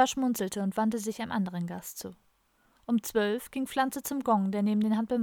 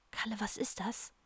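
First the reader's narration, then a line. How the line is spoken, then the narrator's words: Whisper. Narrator (German): flüsterte Don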